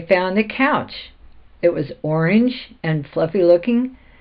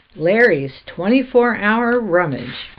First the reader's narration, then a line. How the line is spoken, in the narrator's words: cried